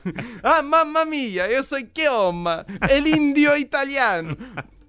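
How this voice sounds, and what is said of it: Very thick put-on Italian accent. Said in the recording (Portuguese): “ele fala com um sotaque muito cerrado”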